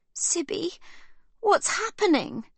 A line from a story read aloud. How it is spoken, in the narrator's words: Livy cries